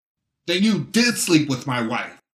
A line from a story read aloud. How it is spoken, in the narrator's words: Murphy shouted, now losing his temper and not caring who heard him